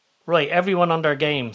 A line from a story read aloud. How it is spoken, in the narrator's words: says Leo